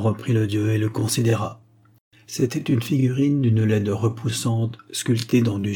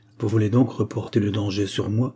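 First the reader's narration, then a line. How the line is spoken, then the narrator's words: Curt. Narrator (French): dit-elle sèchement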